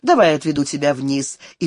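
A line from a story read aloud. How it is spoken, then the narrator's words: Repeated quite rudely. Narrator (Russian): Он повторил довольно грубо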